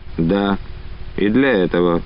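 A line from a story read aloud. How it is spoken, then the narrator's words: Dry reply. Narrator (Russian): сухо ответил Олейников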